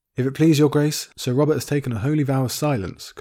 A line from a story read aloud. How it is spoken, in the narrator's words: Qyburn said